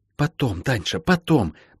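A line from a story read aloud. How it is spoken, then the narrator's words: Hiss. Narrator (Russian): прошипела Молли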